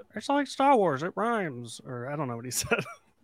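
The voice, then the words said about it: Imitates another person's voice. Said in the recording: “my best George Lucas impression”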